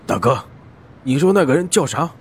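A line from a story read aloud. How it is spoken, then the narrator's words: Hurried question. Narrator (Chinese): 阿荣急忙问道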